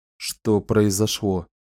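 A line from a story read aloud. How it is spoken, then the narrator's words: Quiet question. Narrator (Russian): тихо спросил он таким голосом, от которого Домини Диртх вполне мог зазвонить снова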